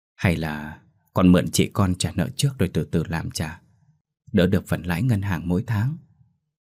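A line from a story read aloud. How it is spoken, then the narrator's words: Soft honeyed coaxing. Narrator (Vietnamese): Bà Hoa nhỏ nhẹ như rót mật vào tai cô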